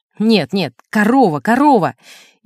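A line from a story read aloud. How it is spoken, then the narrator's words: Irritated interruption. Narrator (Russian): Он раздраженно прерывал меня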